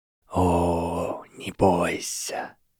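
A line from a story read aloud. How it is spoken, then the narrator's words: Breathed out. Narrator (Russian): выдохнул голос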